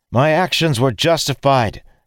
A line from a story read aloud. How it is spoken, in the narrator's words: Dalen called out